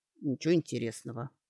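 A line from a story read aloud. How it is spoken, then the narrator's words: Hurt grumble. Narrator (Russian): пробурчал Доран, кажется, уязвленный тем, что Сашке любопытнее эльф, чем он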